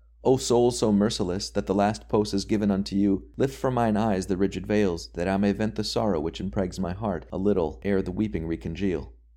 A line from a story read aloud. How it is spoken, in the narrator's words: one of the wretches of the frozen crust cried out